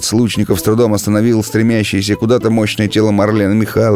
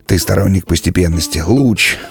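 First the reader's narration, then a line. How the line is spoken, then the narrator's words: Muttering, suppressing laughter. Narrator (Russian): бормотал, борясь с неудержимым смехом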